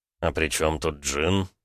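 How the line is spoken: Quiet question. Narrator (Russian): все так же тихо спросил Ромка

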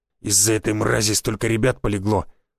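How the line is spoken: Hoarse wheeze. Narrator (Russian): просипел красноречинец

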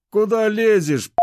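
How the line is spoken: Shouted. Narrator (Russian): выкрикнул один из моих встречающих

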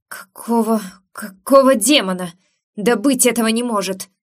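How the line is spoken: Furious, desirous growl. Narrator (Russian): прорычал он, со смесью бешенства и желания

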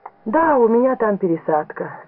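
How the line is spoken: Plain. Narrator (Russian): сказала девушка

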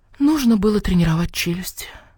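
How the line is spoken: Fox whispering. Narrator (Russian): прошептала лиса

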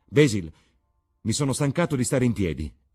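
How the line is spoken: Sudden exclamation. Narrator (Italian): esclamò Dorian Gray all'improvviso

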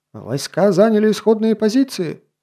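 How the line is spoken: Excited shout. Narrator (Russian): С ноткой восторга в голосе прокричал

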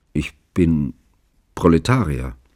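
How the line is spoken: Hesitant. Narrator (German): antwortete Chicklin zögernd

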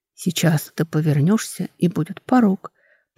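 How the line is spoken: Whisper from above. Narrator (Russian): прошептали над головой

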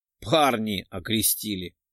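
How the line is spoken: Chuckling. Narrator (Russian): Хохотнул

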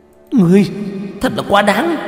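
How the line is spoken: Shouting. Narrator (Vietnamese): Cổ Kỳ Nguyệt quát lên

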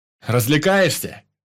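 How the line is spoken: Shouted. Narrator (Russian): крикнул Ваня

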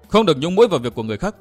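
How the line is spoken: Glaring shout. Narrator (Vietnamese): nàng trừng mắt quát

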